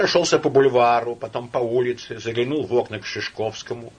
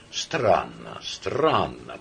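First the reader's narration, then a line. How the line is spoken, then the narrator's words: Mutter. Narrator (Russian): пробормотал Ашмиянов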